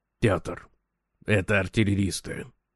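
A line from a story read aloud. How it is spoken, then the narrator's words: Whisper. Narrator (Russian): шепнул Брехт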